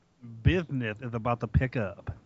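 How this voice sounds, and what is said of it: Imitates another person's voice. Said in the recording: “That was my Dusty Rhodes.”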